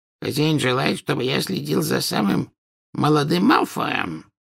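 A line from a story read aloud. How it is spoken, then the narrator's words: Hoarse rasp. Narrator (Russian): прохрипел Кикимер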